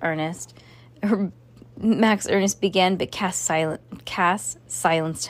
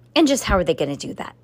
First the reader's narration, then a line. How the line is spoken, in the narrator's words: Miss Johnson scoffed